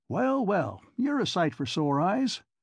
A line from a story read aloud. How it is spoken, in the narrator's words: chuckled Mr